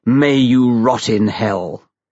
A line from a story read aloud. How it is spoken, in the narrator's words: Peter Atkins splendidly growled